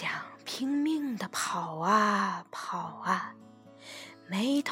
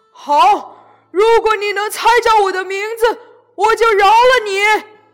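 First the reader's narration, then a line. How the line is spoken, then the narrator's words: Loud roaring. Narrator (Chinese): 鬼大声吼着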